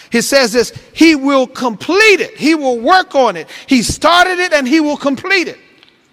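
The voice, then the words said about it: Shouting preacher. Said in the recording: “I'm shouting”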